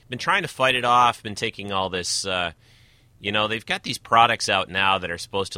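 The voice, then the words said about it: Slightly off, cold-affected voice. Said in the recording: “my voice is a little off this week. I seem to have gotten myself a little bit of a spring-summer cold”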